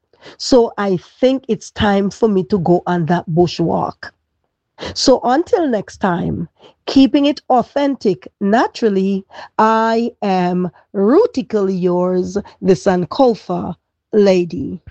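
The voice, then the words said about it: Strained voice, barely able to talk. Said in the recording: “as you can tell by my voice, I can hardly talk.”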